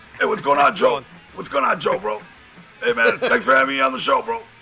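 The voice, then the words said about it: Imitates another person's voice. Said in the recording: “my impression of Alex Marquez”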